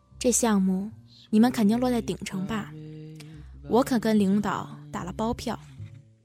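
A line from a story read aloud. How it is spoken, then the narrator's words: Drunk, heavy-breathing whisper. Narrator (Chinese): 林珊粗重呼吸里夹杂着酒臭，在他耳边低声说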